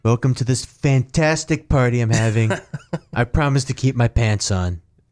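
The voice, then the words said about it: Imitates another person's voice. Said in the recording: “do your Trump voice”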